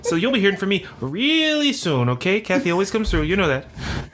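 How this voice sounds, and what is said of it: Put-on possibly Canadian accent. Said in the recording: “Is this a Canadian accent you're doing?”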